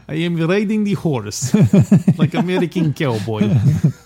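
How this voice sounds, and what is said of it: Put-on Russian accent. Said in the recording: “by then he would have been all like a Russian accent and stuff.”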